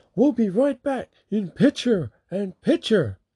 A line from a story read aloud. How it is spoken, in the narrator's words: Excalibur randomly starts screaming